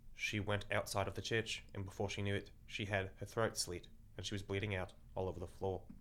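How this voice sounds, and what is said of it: Monotone, dry Australian-accented narration. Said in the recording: “a strange Australian accent, unlike any I've heard, to the point where it sounds fake ... he's also very monotone and very dry”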